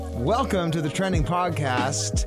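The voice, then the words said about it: Announcer-style radio voice. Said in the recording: “That's his radio voice.”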